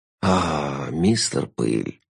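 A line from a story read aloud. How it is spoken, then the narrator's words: Dreamy sigh. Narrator (Russian): мечтательно вздохнул Шут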